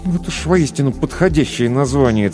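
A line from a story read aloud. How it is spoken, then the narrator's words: Through clenched teeth. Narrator (Russian): цедил сквозь зубы Кир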